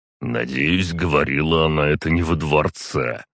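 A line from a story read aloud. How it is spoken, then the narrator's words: Old man's snort. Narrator (Russian): хмыкнул дед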